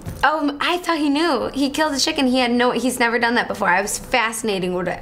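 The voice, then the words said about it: Strong Chicago accent, slightly raspy voice. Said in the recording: “I guess I really have a strong Chicago accent, too. ... you have a cute, little raspy ... Voice ... It's not, a harsh accent.”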